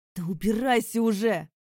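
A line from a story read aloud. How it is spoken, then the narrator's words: Barking. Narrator (Russian): рявкнул на него Викард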